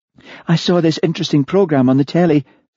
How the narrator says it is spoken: said Martha eagerly

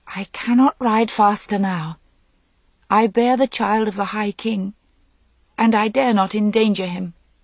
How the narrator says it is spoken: She said, and heard her voice thin and trembling like the voice of a very little girl

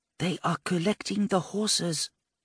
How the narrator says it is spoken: She whispered

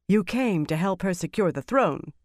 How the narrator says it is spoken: Dialin said sharply

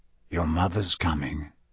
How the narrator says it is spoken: said quietly

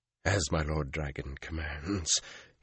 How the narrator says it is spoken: he said hoarsely

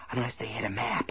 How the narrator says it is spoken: Ace whispered

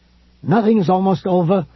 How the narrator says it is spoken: he cried back

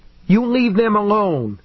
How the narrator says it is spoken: David cried, alarmed

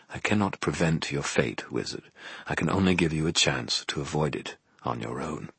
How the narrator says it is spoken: murmured

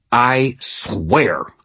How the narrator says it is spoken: I snarled

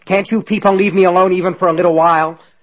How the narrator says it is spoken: he shouted angrily

